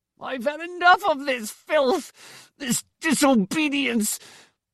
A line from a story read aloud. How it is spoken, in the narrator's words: Torm cried in that thick, shrill voice